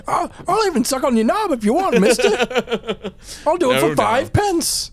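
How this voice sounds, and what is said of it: Put-on street urchin British accent. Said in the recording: “the little, like, street urchin British accent”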